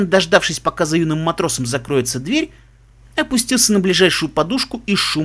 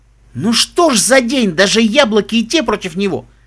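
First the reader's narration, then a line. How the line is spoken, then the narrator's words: Angry snort. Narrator (Russian): Нед фыркнул и сердито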